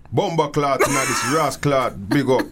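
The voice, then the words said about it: Put-on Jamaican Yardman accent. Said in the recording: “I'm working on my Yardman accent”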